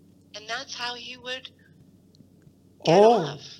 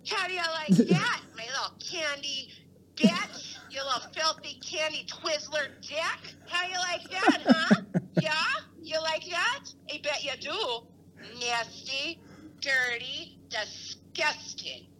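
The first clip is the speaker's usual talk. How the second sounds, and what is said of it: Mocking motherly scolding voice. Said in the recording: “doing my mom voice.”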